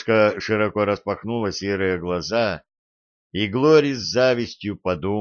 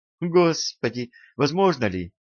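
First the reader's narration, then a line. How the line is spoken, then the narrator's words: Joyful exclamation. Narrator (Russian): радостно воскликнула мисс Грэнджер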